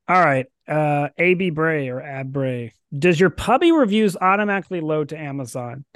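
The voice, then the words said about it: Hoarse, fading voice. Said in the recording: “It's on my throat. I'm losing my voice, people. It's gone. Slowly but surely.”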